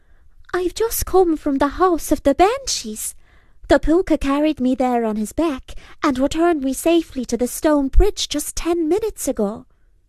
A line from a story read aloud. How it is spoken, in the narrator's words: he called out